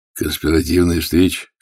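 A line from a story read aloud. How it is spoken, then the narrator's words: Snorting. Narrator (Russian): хмыкнул Влад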